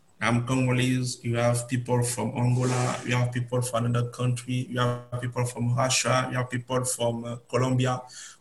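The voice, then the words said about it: French-influenced African English accent. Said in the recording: “My accent is more French.”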